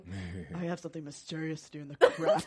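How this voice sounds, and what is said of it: Imitates a film character's voice. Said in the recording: “you do a great impression ... talk like that for the rest of this podcast”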